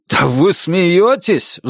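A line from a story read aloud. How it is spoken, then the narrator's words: Roaring into phone. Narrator (Russian): взревел в трубку Джейк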